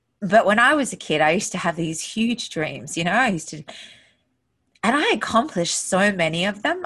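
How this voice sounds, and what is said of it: Emotional, choked-up voice. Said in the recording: “getting emotional”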